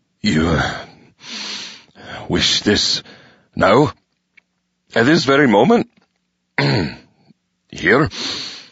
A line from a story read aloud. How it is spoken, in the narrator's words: After a moment's hesitation, he croaked